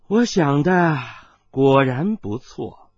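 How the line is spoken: Soft sigh. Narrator (Chinese): 温代代轻叹道

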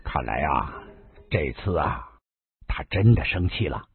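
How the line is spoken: Low voice. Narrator (Chinese): 丁喜低声的说道

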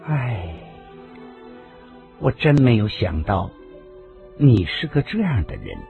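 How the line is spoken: Soft sigh. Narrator (Chinese): 袁子霞才轻轻叹息了一声

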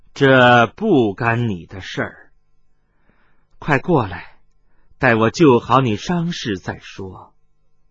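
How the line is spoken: Cold woman's voice. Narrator (Chinese): 夫人冷冷地说道

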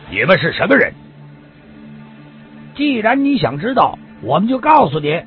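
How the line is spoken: Loud, forced calm. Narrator (Chinese): 杨征也只有尽力使自己平静，大声的问道

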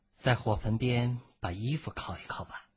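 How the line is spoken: Flat, calm. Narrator (Chinese): 孟觉 淡淡的说

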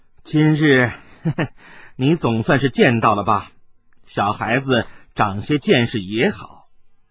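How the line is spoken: Laughing. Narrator (Chinese): 温代的笑着说道

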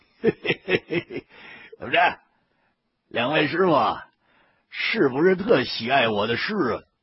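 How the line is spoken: Abruptly cut off. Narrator (Chinese): 这句话还没全说出来呢，他立马就收了口了

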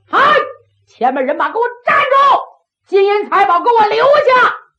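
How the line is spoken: Loud shout. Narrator (Chinese): 郑玉春……故此大喊一声

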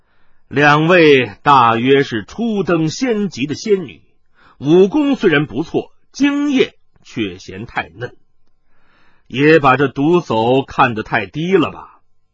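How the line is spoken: Laughing. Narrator (Chinese): 麻衣客笑道

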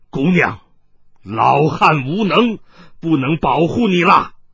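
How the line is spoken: Harsh anguished cry. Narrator (Chinese): 冷泉福厉声惨呼道

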